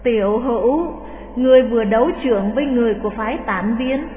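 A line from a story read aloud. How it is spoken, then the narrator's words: Sighing. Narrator (Vietnamese): Khất Đại Phu thở dài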